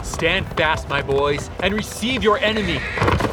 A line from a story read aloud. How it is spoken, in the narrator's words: he bellows out